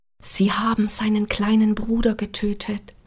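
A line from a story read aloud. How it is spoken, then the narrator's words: Whisper. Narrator (German): vor Savigliano kam es flüsternd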